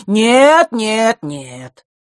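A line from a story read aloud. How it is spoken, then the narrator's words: Loud protest. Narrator (Russian): громко запротестовал Эфларус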